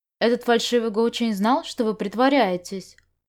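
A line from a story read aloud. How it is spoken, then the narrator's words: Plain. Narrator (Russian): спросил Можань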